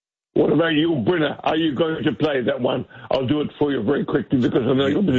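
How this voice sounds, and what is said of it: Usual voice. Nothing is said of it.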